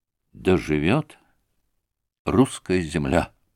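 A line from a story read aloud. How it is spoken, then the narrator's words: Quiet. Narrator (Russian): проговорил он тихо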